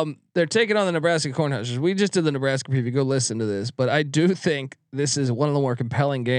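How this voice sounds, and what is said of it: Usual voice. Nothing is said of it.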